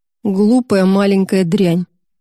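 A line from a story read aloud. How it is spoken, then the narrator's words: Growled. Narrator (Russian): прорычал Эдди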